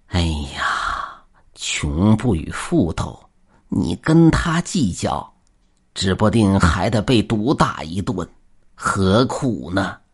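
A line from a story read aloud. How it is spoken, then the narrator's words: Hurried sigh. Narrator (Chinese): 竹竿老爹连忙叹息道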